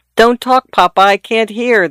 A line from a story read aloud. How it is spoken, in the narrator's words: the daughter exclaimed tartly